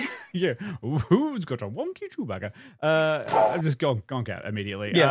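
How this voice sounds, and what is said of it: Usual voice. Nothing is said of it.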